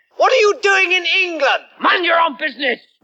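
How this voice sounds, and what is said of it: Exaggerated French accent. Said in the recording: “I'm French! Why do you think I have this outrageous accent”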